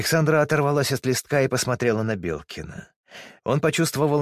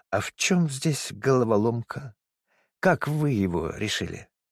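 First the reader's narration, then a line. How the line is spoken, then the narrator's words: Smiling drawl. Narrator (Russian): Вольнова почему-то улыбнулась, протянула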